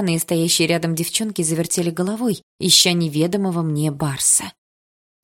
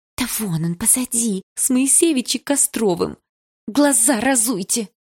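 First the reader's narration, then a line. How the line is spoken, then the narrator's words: Hiss. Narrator (Russian): прошипела Дилара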